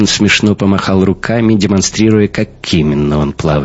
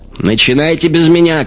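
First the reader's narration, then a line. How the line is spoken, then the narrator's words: Shouted reply. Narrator (Russian): крикнул Хаген в ответ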